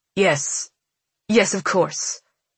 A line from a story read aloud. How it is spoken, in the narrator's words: Rhombos stammers